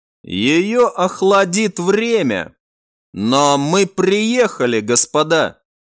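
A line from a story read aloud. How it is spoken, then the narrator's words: Old man's snort. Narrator (Russian): хмыкнул старый генерал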